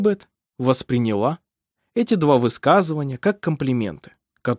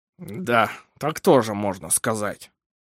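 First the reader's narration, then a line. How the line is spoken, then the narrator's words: Through gritted teeth, doctor. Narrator (Russian): процедил врач сквозь зубы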